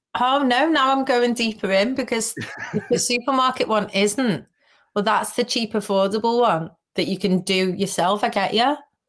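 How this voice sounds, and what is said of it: Scouse Liverpool accent. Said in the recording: “your accent sounds ... I am enamored with the Scouse. Is it Scouse? ... Yeah, Scouse. Accent. ... I can really pick up on the Scouseness.”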